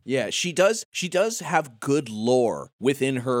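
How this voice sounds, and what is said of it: Usual voice. Nothing is said of it.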